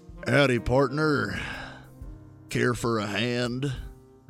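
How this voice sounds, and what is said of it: Cowboy character voice. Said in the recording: “Talk cowboy.”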